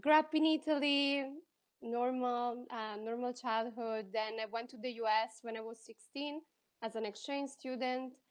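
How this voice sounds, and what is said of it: Italian accent, mixed American influence. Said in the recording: “I'm from Italy, as you can probably hear from my accent. I have a very weird accent because I learned English in the States and I lived in Spain for 5 years. So I have a very weird accent.”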